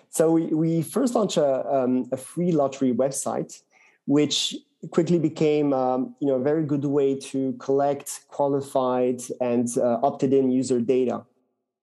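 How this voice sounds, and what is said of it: French accent in English. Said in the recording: “good Frenchmen, as you can hear from my accent”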